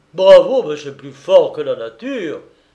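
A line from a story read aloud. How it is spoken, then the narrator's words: Admiring exclamation. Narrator (French): s'écria Robert Danvers, s'exprimant ainsi le superlatif de son admiration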